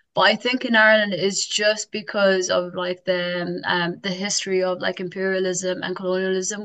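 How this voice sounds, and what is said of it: Irish accent. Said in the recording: “once someone hears my accent, it's like, oh, where are you from? I'm like, oh, Carlo.”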